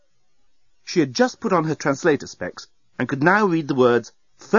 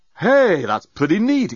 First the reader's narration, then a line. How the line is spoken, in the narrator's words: exclaimed Dan